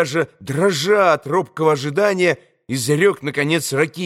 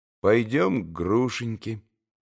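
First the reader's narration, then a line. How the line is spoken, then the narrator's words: Calm, immediate reply. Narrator (Russian): спокойно и тотчас же ответил Алеша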